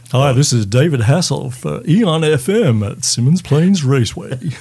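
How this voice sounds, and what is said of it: Put-on radio announcer voice. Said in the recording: “put on my radio voice ... Without the American accent, though ... That was pretty good.”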